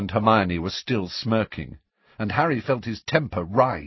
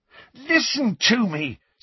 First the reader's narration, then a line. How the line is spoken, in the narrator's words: said Harry, almost angrily, because Ron and Hermione were both smirking now